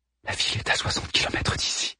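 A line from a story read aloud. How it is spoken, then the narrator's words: Murmur. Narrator (French): murmura-t-elle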